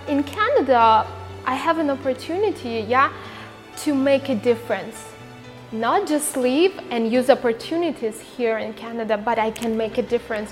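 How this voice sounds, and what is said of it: Immigrant speaker's non-native English accent. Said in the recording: “being an immigrant, speaking with the accent”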